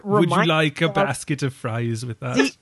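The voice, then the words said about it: Monotone impression drifting Irish, Austrian. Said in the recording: “so monotone ... you're getting into Irish territory ... I don't know how I went Irish ... You're also getting into Austrian territory because that sounds vaguely familiar to Arnold Schwarzenegger”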